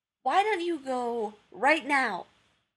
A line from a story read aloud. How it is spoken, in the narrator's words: John asked brightly